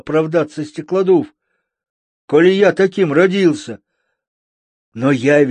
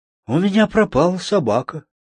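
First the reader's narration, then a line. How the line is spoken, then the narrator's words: Sad. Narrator (Russian): грустно сообщил он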